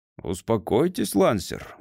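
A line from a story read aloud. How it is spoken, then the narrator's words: Grumbling. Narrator (Russian): ворчал Денбьюри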